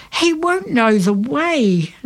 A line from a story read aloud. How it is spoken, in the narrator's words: Lenny cried